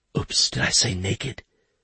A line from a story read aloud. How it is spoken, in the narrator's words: She whispered